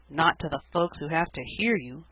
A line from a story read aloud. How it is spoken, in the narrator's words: muttered Dan aside to Cecily